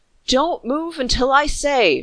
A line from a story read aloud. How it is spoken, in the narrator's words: cried